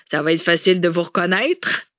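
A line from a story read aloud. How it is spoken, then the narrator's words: Sneering. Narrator (French): ricana Bourbeau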